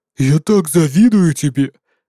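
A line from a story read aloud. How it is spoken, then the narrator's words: Grumbled. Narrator (Russian): проворчал Уголь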